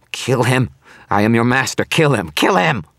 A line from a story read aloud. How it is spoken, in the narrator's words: The demon howled in rage